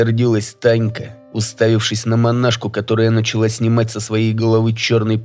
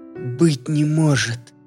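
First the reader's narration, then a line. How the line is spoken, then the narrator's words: Stunned, forced out. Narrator (Russian): Только и выдавила она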